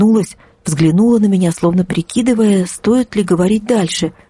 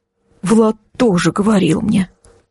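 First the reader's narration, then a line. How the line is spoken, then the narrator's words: Trembling voice. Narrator (Russian): произнесла Ксюша дрожащим голосом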